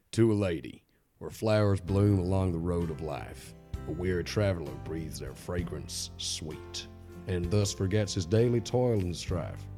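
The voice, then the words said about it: Generic Southern American put-on accent. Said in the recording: “Kentucky accent ... this is going to be a generic... Like Texan, Kentucky, whatever accent. I'm not good at regional American accents.”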